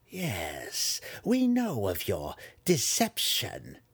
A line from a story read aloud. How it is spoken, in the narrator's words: Malice sneered